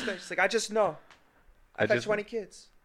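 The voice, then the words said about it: Exaggerated Mexican accent. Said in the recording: “That accent wasn't on purpose. ... That was ridiculous. ... You was talking about Mexicans having a lot of kids”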